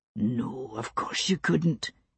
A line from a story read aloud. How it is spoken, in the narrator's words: he whispered to her